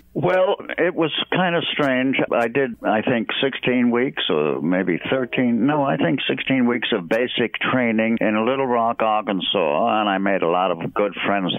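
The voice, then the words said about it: New England accent. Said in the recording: “I picked up that kind of New England accent without thinking about it, and I guess I've never lost it since.”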